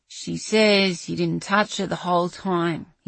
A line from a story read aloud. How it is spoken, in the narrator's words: grumbled